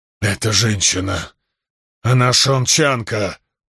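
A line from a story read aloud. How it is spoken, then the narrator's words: Growling. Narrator (Russian): прорычал контрабандист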